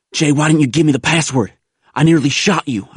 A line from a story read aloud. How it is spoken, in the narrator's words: I gasped